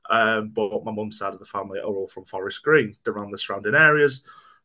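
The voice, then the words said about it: Stoke-on-Trent English accent. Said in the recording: “you can tell by the accent I'm definitely not from Forest Green ... I'm originally from Stoke-on-Trent”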